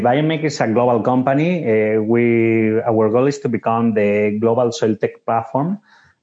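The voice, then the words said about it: European-accented English. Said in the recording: “you feel in my accent ... that I'm originally from Europe”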